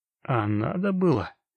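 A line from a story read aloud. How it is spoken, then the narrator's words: Gloomy question. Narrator (Russian): поинтересовался мрачно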